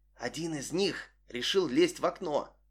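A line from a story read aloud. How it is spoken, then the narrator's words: Whisper. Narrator (Russian): прошептала она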